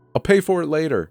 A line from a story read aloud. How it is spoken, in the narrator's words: he shouted over his shoulder